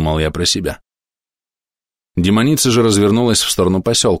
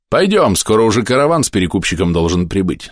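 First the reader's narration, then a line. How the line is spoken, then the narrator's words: Plain. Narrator (Russian): сказала она мне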